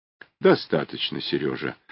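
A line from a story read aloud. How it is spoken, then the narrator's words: Soft calm colonel. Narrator (Russian): мягко и спокойно сказал полковник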